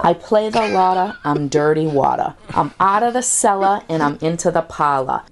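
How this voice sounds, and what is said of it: Authentic accent with dropped R's. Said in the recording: “My accent's authentic... I drop my R's like Brady drops bombs.”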